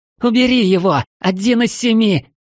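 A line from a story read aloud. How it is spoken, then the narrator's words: Frightened shriek. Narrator (Russian): Взвизгнула Мара, боясь шелохнуться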